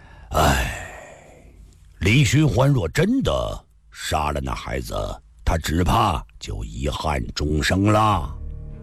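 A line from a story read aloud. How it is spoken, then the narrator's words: Long feigned sigh. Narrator (Chinese): 秦孝义突然泛起一丝恶毒的微笑，但他尽量将这种微笑压制掩饰着，却长叹道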